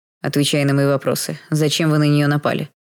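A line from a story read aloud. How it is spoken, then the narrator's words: Icy repeating. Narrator (Russian): повторил ледяным голосом незнакомец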